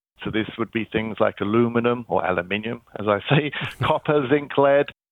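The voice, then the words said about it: British London accent. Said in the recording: “You can probably tell by my funny accent, I'm not from Kansas. I'm originally from London”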